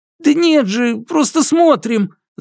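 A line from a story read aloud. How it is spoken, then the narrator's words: Babbling soldiers. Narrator (Russian): залепетали солдаты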